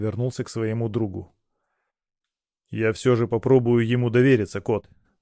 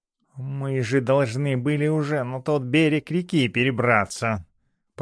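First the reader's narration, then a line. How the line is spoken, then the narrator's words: Grumbled. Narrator (Russian): проворчал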